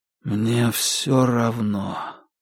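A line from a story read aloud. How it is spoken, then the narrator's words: Tired reply. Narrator (Russian): устало ответил Дейл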